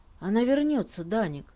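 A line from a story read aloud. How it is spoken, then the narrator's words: Quiet father. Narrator (Russian): тихо сказал отец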